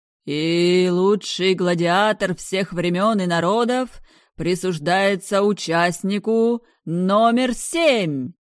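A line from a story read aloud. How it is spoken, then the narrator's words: Loud announcer's shout. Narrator (Russian): громко прокричал ведущий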